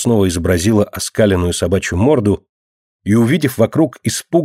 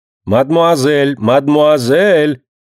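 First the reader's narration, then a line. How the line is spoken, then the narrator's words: Woman shouting. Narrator (Russian): кричала классная дама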